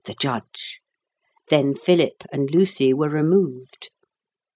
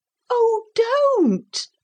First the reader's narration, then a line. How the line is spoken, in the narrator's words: cried Philip, almost weeping